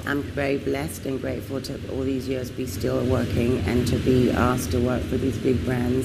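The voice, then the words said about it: British accent. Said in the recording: “With a British accent.”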